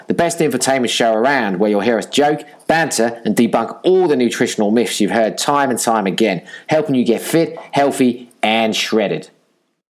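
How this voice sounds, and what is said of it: Put-on podcast host voice. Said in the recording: “that little bit in a podcast accent”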